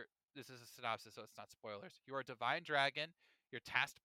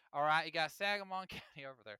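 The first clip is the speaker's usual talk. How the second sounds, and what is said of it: Put-on southern accent. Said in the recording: “I did a southern accent”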